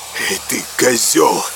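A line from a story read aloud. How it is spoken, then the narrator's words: Wheezing. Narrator (Russian): просипел он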